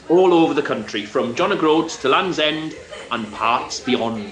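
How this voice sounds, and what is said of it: Strong Welsh accent. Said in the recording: “sounds a bit Welsh... I suppose I sound a little bit Welsh... I would say you sound quite a lot Welsh.”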